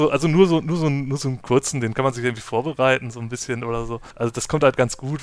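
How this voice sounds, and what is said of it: Usual voice. Nothing is said of it.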